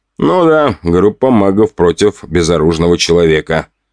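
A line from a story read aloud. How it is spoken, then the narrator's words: Snorting. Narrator (Russian): хмыкнул я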